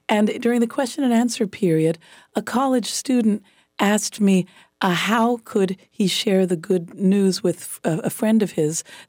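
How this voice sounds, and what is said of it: Slightly raw, hoarse voice. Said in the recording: “You can probably tell my voice is still a little raw.”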